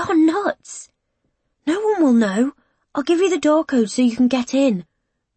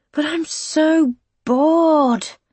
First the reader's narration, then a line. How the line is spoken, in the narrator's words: he sighs his frustration